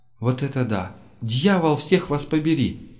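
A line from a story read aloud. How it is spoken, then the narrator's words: Exclamation. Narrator (Russian): воскликнула Керрис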